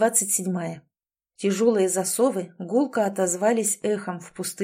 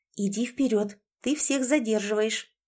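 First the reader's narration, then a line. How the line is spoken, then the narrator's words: Whisper in the ear. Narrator (Russian): прошептала ей на ухо Лори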